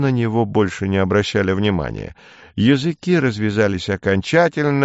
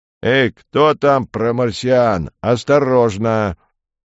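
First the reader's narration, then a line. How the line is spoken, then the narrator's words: Sulky bellow. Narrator (Russian): Пандарей надулся еще больше и гаркнул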